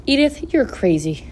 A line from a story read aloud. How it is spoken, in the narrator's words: mumbled Zuckerman